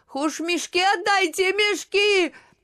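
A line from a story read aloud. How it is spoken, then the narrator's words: Shout broken by sobs. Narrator (Russian): И рыдания оборвали крик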